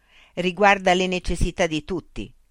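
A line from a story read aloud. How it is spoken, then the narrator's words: Shouted. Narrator (Italian): gridò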